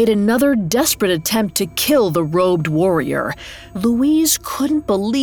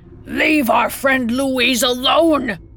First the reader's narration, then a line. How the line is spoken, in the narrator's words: yelled